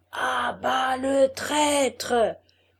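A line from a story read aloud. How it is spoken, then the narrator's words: Many voices repeating. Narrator (French): répétèrent mille voix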